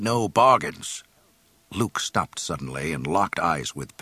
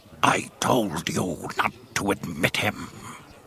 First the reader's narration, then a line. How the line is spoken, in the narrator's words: the gangster slug growled in Huttese